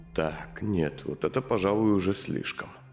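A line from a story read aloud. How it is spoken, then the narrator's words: Whispered. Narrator (Russian): прошептал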